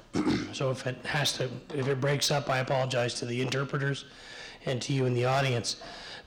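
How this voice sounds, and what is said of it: Rough, hoarse voice. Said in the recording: “my voice is a little bit rough because I'm over a cold, but I have lost my voice.”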